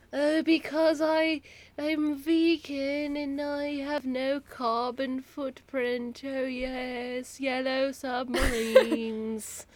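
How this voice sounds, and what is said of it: Bad impression drifting into Australian accent. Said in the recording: “I'm, like, going Australian. ... That's a terrible accent.”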